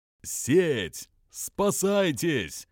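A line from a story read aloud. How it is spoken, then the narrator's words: Loud shout. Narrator (Russian): громко закричал он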